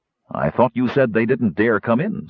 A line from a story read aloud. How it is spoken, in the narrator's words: Sturm said sharply